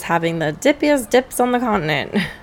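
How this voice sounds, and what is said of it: Old-timey 1920s entertainer voice. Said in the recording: “That's my impression of a 1920s, 1930s old-timey entertainer man.”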